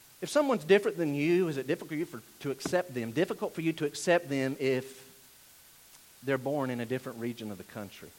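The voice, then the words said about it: Slow speech with Southern drawl. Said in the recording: “where I'm from, and they talk slow like me with a little drawl and an accent ... dumb Southerners”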